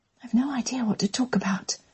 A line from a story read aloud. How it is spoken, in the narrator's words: she whispered